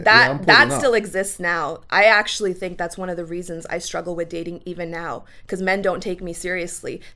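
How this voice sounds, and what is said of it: Speaks with a noticeable non-local accent. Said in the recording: “They're thrown off by the accent, bro. ... The accent's attractive”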